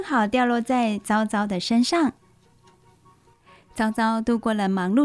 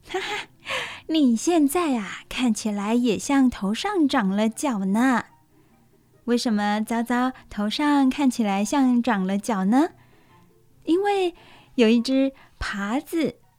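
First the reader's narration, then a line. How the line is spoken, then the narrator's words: Laughing. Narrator (Chinese): 乳牛妈妈忍不住大笑，她说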